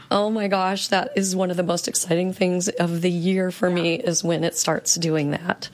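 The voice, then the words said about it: Raspy, froggy voice. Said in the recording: “I've got a little frog in my throat ... Giving me that ultra, you know, raspy little voice”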